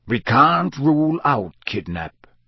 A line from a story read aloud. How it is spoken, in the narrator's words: growled Moody